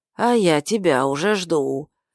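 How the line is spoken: Husky old woman's voice. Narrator (Russian): хрипловатый голос пожилой женщины

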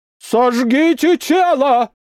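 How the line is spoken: Priest shouting. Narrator (Russian): прокричал священник

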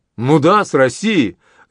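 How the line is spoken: Joyful exclamation. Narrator (Russian): радостно воскликнул Монтегю

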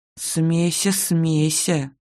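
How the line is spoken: Grumbling. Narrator (Russian): заворчала

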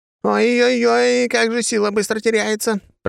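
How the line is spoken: Shouting. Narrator (Russian): прокричала она

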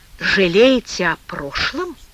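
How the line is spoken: Quiet dry-voiced question. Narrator (Russian): тихо спросил Тимофей пересохшим голосом

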